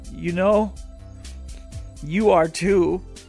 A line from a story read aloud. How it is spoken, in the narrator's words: he said hesitantly